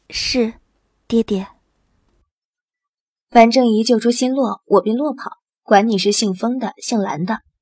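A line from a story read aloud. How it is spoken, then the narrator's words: Low, restrained voice. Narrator (Chinese): 心中虽万般不愿，面上却还是淡淡的……低声道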